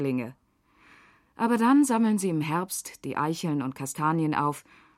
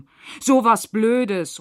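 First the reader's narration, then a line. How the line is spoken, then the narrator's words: Loud call. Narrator (German): ruft Jona laut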